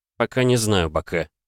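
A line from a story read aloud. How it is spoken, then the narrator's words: Quiet reply. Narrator (Russian): тихо ответил я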